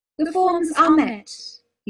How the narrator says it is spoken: he said, in a clear, strangely high voice

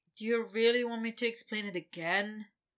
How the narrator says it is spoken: Victor said with a sigh

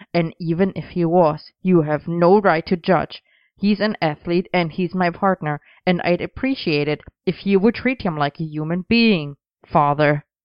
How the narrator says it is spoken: Arthur barked

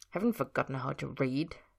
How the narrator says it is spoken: Ed muttered

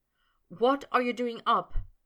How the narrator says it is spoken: Potter said anxiously

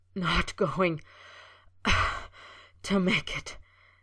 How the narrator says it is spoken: he gasped, shaking with the dagger-like pain

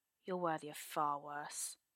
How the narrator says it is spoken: Arthur sneers

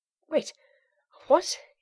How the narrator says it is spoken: he panted

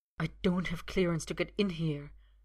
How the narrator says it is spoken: he hisses

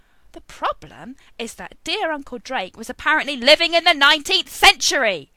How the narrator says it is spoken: Arthur bellowed

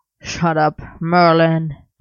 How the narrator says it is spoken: Arthur growled

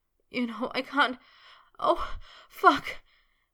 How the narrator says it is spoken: he wailed

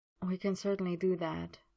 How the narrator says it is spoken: Merlin murmured

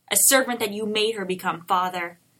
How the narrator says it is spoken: Arthur suddenly snarled, all previous calm gone

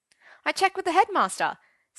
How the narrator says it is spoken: said Arthur brightly

